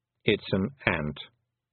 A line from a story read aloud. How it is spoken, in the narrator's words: said the toad